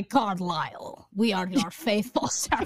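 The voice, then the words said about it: Strange unplaceable put-on accent. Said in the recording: “He has this, like, disgusting accent that no one knows where it's from.”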